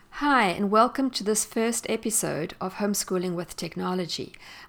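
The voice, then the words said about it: South African accent. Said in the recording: “You may have realized from my accent that I am not American. In fact, I am South African”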